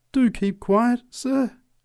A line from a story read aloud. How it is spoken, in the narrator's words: pleaded the preacher